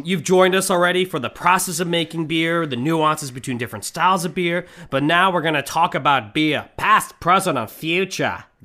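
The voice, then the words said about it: Switched to a put-on accent. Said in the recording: “Oh, you switched accents.”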